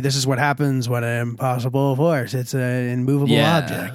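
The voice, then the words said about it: Wheezy, asthmatic imitation of an actor. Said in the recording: “that was a good asthmatic Heath Ledger”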